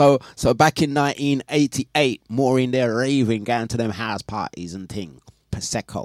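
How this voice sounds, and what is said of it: Usual voice. Nothing is said of it.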